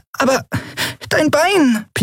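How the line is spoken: Squeaky voice. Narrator (German): piepste Nelen

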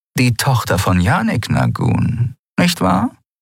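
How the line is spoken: Purred. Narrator (German): schnurrte sie

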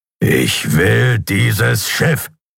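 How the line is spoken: Growling. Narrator (German): knurrte er

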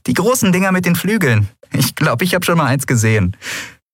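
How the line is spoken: Laughing. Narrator (German): sie lachte

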